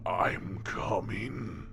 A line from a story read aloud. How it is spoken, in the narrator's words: said a horrid, raspy voice